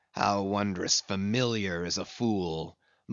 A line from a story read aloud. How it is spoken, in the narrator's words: muttered Ahab